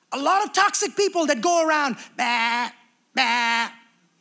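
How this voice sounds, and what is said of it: Imitates a sheep's bleat. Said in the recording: “I don't know if that sounded like a sheep or not, but I did my best impression.”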